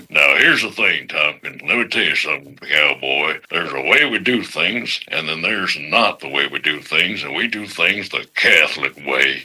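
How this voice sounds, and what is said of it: Cowboy impression of another person. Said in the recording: “since it was a cowboy ... my best Sam Elliott impression ... a little too much”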